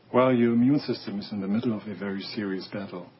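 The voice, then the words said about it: Very thick foreign accent. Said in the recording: “Your accent is very thick. ... You ever notice your accent makes things sound worse than they actually are?”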